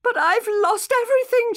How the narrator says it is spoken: she said, sobbing

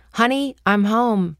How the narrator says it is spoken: Some character yelled

